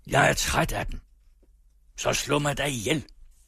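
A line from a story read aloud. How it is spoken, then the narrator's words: Shouted. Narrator (Danish): Javert råbte til Jean Valjean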